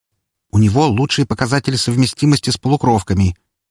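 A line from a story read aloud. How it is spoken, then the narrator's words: Breathed out sharply. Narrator (Russian): выдохнула Валькирия чуть резче, чем следовало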